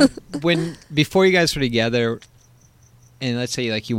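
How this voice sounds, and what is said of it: Usual voice. Nothing is said of it.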